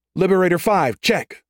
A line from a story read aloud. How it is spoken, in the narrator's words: Private Yasko snapped, her response sharp and eager